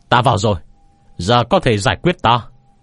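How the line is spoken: Loud shout. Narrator (Vietnamese): lớn tiếng thét lên với không trung

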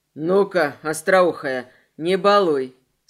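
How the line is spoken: Stern command. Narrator (Russian): строго повелел князь

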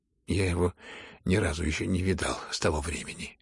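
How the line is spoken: Mumble. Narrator (Russian): пробормотал князь

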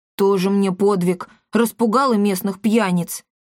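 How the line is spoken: Snort. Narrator (Russian): фыркнул Пима

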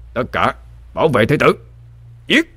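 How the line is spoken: Captain's shout. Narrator (Vietnamese): Thuyền trưởng quát lên

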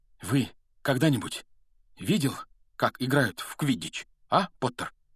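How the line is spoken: Plain. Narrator (Russian): спросил Вуд

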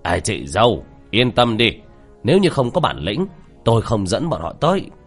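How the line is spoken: Laughing loudly. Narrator (Vietnamese): Tô Bàn Tử cười lớn

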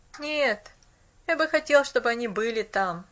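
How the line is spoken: Wistful sigh. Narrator (Russian): тоскливо вздохнул он

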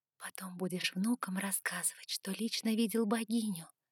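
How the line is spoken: Whisper. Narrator (Russian): шепнула я Сумраку

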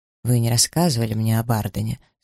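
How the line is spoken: Plain, after a pause. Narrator (Russian): сказал он наконец

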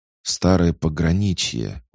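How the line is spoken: Exclamation. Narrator (Russian): воскликнул Дерек

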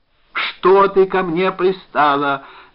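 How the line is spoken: Yelled. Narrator (Russian): заорал Евгений Родионович

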